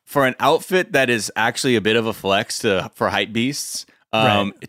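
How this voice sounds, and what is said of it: Usual voice. Nothing is said of it.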